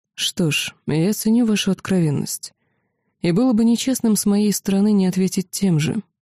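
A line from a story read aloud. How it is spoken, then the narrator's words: Quiet. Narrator (Russian): тот, кто уже не являлся владыкой драконьей долины, тихо произнес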